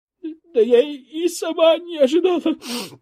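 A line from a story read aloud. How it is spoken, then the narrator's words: Sobbing. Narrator (Russian): всхлипнула Воскресенская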